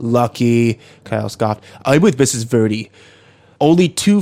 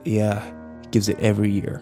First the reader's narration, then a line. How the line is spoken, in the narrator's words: Kyle muttered